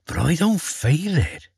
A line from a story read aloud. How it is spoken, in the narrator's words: he said with a sigh